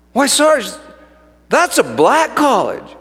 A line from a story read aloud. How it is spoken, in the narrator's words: she exclaimed